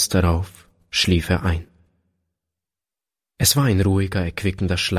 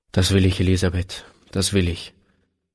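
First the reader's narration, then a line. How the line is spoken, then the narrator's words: Plain. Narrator (German): antwortete er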